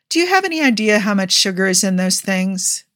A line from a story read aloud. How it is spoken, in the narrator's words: Tony asked